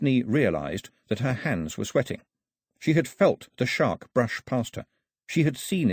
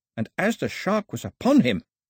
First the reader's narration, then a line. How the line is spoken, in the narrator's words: he shouted at it in scorn